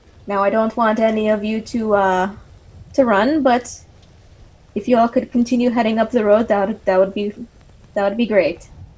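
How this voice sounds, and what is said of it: Sing-song fantasy Elvish accent. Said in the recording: “kind of a sing-song common voice ... kind of accented in Elvish ... Don't know what accent this is”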